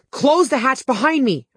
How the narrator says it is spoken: I yelled

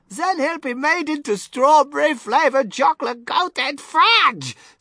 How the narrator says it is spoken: screamed Mrs

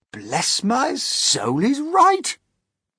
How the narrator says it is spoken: the old green grasshopper exclaimed

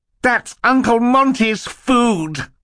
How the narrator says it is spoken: Klaus cried out suddenly, his face contorted in anger

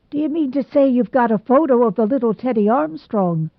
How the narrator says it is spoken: exclaimed Mr

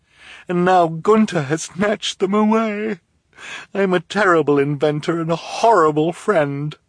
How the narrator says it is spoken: she said mournfully

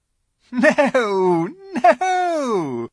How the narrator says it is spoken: said the Queen with a laugh

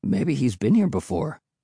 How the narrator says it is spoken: Will replied

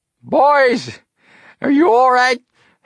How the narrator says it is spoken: Hank yelled

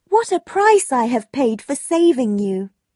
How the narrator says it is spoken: Margaret cried

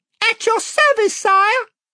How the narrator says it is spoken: piped Reby Cheep from another corner

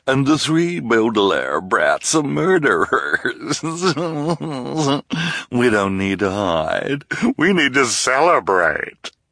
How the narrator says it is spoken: Esme said with a nasty chuckle

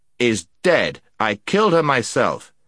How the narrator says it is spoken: said the prince sternly

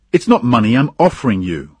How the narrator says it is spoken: answered angrily

